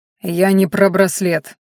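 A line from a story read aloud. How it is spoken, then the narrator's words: Growl through teeth. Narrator (Russian): сквозь зубы прорычал Харен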